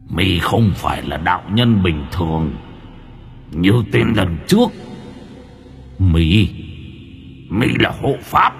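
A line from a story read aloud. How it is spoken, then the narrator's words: Resonant tiger voice. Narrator (Vietnamese): con hổ cất tiếng vang như người nói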